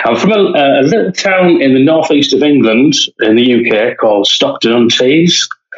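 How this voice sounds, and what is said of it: English accent. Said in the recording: “I know you're going to tell me that you don't have an accent. I have an accent.”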